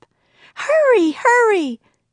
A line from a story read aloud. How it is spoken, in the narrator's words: screamed Annie